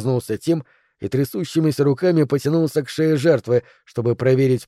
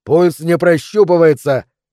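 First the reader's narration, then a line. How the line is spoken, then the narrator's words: Shout. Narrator (Russian): крикнул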